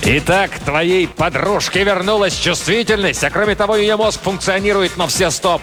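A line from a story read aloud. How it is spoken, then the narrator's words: Roaring. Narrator (Russian): проревел Кризераст ужасный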